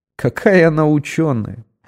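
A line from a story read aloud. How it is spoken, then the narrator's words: Laughing uncontrollably. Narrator (Russian): Я все не мог отсмеяться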